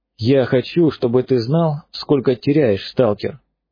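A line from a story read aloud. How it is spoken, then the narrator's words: Calm. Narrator (Russian): спокойно говорит пророк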